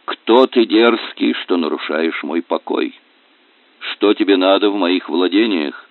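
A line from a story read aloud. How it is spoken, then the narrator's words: Cold question. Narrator (Russian): Он холодно спросил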